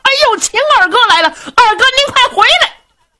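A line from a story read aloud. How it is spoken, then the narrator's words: Loud shouting. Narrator (Chinese): 大家高声喊嚷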